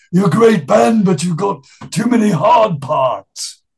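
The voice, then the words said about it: Impression of another man's voice. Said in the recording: “that's a good impression, man.”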